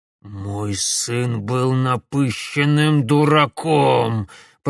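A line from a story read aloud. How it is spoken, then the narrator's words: Old man through gritted teeth. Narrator (Russian): процедил сквозь зубы старик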